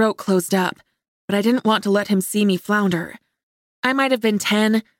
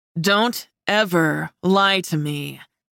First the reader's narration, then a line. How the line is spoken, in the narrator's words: he growled, and his tone lifted the hairs on the back of my neck